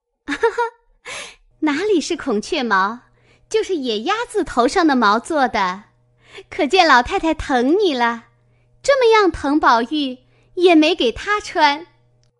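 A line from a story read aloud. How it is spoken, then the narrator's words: Laughing. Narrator (Chinese): 香云笑道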